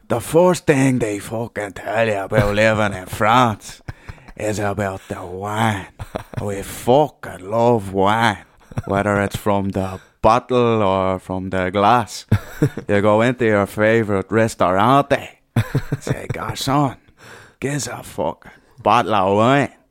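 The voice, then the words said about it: French accent with Dublin tinge. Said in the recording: “he's still got the French accent, but it's a wee bit of Dublin”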